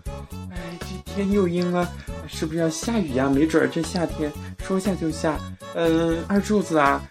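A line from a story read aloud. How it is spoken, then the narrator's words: Old woman muttering. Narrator (Chinese): 老太太 嘀咕说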